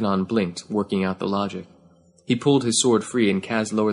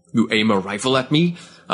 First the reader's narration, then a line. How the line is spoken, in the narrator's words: Av Kanan spat